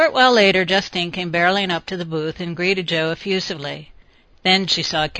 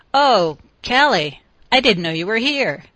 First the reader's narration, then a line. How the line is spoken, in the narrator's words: she exclaimed, obviously disappointed